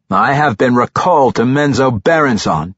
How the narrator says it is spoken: Tiago growled

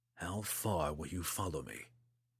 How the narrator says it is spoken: Drizzt whispered into the morning breeze

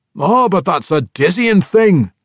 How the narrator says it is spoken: Athrogate sputtered when he walked through Camoriel's time-space distortion

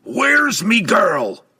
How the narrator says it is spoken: the dwarf roared

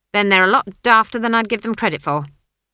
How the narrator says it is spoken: she snapped

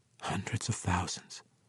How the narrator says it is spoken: she whispered

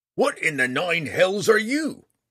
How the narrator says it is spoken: the bounty hunter roared

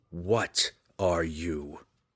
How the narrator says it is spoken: The spirit wraith snarled

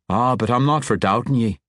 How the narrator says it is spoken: Conrad assured him, his tone comforting, too much so

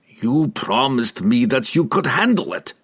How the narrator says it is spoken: Pook growled at him

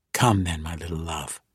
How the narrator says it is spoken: Catti Breeze whispered to the girl

